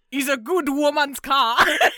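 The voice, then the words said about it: Put-on Jamaican accent. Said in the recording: “That's an excellent Jamaican.”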